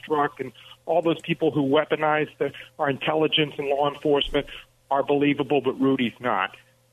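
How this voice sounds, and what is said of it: New York accent. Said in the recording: “Are you from New Jersey? ... four people from Jersey came up ... They sounded just like you. What accent do you have? ... It's New York. ... you got your dad's accent”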